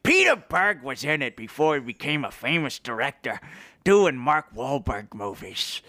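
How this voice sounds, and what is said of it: Poor imitation of another person's voice. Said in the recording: “a poor impersonation of him ... That sounds nothing like him, but it's my impersonation.”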